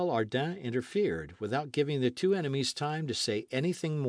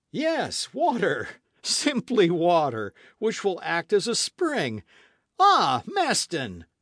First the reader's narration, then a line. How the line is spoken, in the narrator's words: cried Barbicane